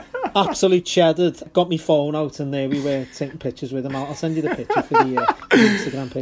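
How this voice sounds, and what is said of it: Scouse accent. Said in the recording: “your Scouse”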